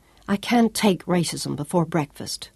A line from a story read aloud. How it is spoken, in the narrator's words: Claudia told him icily